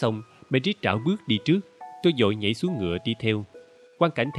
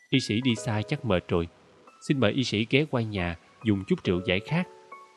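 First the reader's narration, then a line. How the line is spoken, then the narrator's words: Gentle, faintly sulky. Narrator (Vietnamese): Merit ... dường như hờn giận nhưng vẫn nhẹ nhàng nói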